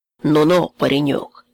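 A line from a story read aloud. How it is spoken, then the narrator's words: Stern remark. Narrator (Russian): строго заметил Петр Кузьмич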